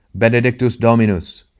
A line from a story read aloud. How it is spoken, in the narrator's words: he cried, with upraised face and shining eyes